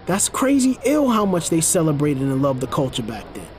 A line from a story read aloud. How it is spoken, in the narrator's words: Chris expressed happily